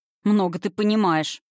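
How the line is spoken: Young man snorting. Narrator (Russian): фыркнул босоногий парень

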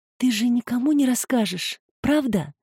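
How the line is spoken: Anxious whisper. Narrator (Russian): прошептала она с тревогой

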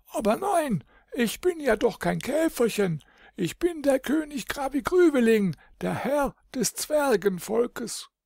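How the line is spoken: Frightened little king calling. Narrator (German): Doch der kleine König hob erschrocken die Arme vor sich hin und rief

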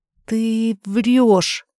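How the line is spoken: Uncertain. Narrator (Russian): неуверенно произносит она

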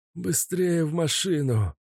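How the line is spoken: Wheezing. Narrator (Russian): просипел Каша

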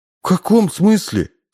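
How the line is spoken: Sobbing. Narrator (Russian): всхлипнул Удалов

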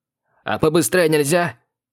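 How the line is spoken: Barked. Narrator (Russian): рявкнул я

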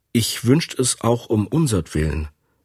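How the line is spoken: Plain. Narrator (German): sagt er

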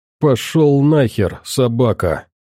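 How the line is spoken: Angry spitting words. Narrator (Russian): зло выплюнул слова пленник

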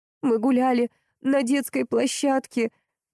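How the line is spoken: Trembling voice. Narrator (Russian): дрожащим голосом принялась рассказывать она

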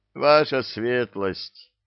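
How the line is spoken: Pained moan. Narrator (Russian): простонал один из наемников, баюкая вывихнутую руку

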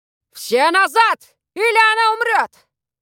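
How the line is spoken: Shouted. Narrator (Russian): крикнул Воллер

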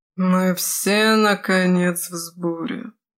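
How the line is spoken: Otherworldly voice. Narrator (Russian): произнес Лео потусторонним голосом

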